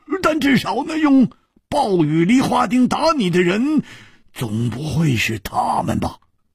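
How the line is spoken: Suddenly loud. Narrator (Chinese): 胡铁花忽然大声地说

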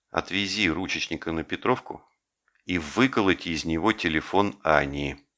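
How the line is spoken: Whisper. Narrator (Russian): Жеглов ... шепнул

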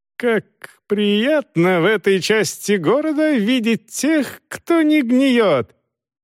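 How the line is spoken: Very high-pitched voice. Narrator (Russian): Очень-очень высоким голосом проговорил он

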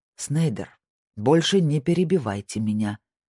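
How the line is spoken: Calm. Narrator (Russian): спокойно сказал Дромайер

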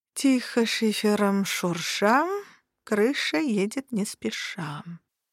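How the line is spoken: Skeptical drawl. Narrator (Russian): протянула я скептически

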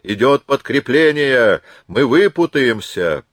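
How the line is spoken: Triumphant shout. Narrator (Russian): его голос, который с непередаваемым оттенком торжества кричал

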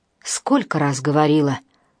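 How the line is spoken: Low hoarse voice. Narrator (Russian): раздался рядом низкий хриплый голос

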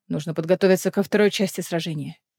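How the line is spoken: Hoarse voice. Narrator (Russian): охрипшим голосом заговорил Эдион

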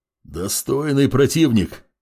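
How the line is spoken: Growled by big man. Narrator (Russian): прорычал здоровяк

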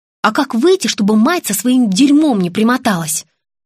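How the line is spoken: Indignant question. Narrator (Russian): возмущенно спросила Настя

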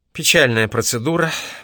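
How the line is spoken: Sigh, woman. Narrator (Russian): вздохнула она

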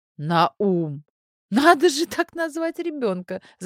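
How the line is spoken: Laughing. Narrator (Russian): засмеялась Зойка

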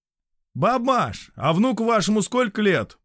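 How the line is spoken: Shouting from another room. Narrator (Russian): прокричал он из комнаты

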